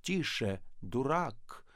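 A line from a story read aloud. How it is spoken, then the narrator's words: Menacing. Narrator (Russian): сказал Остап грозно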